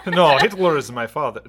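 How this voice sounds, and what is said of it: Poor put-on Russian-sounding accent. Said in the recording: “why did I do that accent? It's a terrible accent. ... It's kind of Russian. ... We're no good at accents.”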